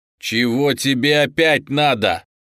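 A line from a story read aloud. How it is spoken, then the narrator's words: Shout. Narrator (Russian): крикнул ей парень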